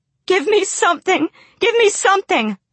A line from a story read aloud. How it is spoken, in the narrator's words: I begged